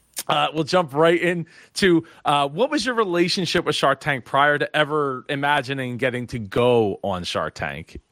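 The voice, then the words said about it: Strained, worn-out voice. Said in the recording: “my voice is getting shot now”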